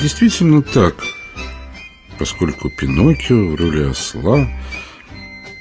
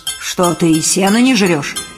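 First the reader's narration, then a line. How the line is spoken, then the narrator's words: Angry exclamation. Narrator (Russian): гневно воскликнул хозяин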